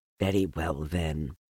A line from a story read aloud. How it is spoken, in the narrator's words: said